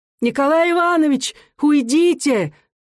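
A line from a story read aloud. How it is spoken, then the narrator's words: Shouting. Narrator (Russian): закричала она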